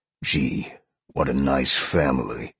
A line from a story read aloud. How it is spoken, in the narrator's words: Sean growled